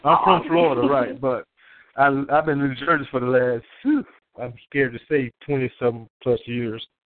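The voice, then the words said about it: Mild Southern US accent. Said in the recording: “my kind of southern accent”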